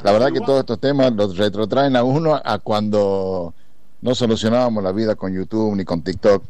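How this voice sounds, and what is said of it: Catamarca regional Argentine accent. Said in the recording (Spanish): “por la tonada ya me sacan que no soy de La Plata... soy de Catamarca”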